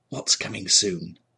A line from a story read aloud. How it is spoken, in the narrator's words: he whispered to the old woman